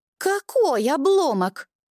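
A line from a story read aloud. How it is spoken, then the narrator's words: Squealing from corner. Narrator (Russian): повизгивает из своего угла Бальвус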